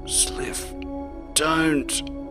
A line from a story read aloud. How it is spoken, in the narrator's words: Glindrell croaked